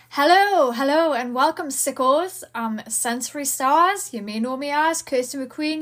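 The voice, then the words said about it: Raised, loud excited voice. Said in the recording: “which is why my voice is raised”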